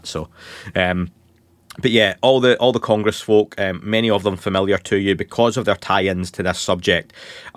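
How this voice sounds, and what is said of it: Scottish accent. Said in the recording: “Scottish accent”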